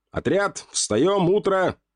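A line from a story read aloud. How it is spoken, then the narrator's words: Quite loud. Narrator (Russian): сказал я весьма громко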